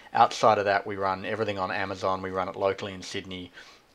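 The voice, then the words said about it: Charming foreign accent. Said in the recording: “The charming accent”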